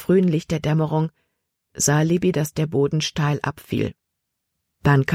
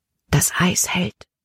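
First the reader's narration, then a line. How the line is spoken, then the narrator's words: Whispered. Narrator (German): flüsterte Caleb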